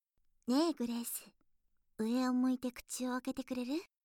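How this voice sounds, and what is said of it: Whispering close to the ear. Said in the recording (Japanese): “耳元で囁いてきます”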